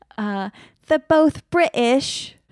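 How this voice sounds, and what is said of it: Put-on Cockney British accent. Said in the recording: “you're very good at it. ... That was more my my like Cockney version of a British accent.”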